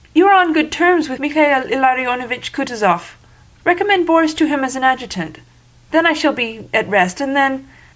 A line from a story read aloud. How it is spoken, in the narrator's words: faltered